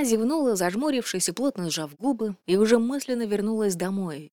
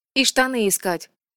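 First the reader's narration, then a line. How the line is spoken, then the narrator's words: Snorting. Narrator (Russian): фыркнула Асин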